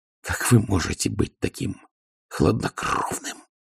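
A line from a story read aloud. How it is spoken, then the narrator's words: Growled. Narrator (Russian): прорычала она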